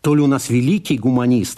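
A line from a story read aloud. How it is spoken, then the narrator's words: Plain. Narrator (Russian): сказал Вика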